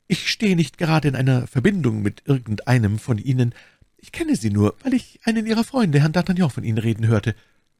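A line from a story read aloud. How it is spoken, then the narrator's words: Stammering. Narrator (German): stammelte My Lady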